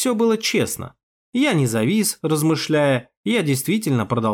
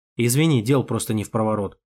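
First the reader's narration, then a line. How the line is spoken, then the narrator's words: Grumbling. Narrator (Russian): проворчал я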